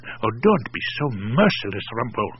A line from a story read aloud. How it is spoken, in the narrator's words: Ramat whispered